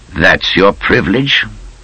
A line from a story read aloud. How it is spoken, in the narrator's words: Rommel said calmly